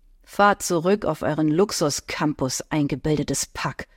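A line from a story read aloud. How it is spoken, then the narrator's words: Muttering. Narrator (German): ihn murmeln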